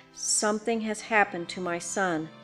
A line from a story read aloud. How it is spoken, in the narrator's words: she said in a low voice